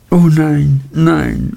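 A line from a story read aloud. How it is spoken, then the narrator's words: Sobbing. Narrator (German): schluchzte Dora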